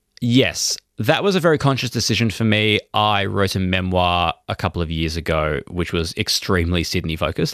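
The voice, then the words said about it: Thick Australian accent. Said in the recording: “thick Australian accent”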